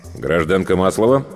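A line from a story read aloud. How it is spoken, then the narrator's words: Menacing. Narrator (Russian): грозно свел брови Игнат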